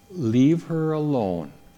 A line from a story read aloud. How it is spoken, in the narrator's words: Jesus replied